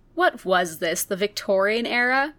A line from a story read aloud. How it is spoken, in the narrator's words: Chrissy chuckled at his formality